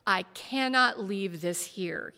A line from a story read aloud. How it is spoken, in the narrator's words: he said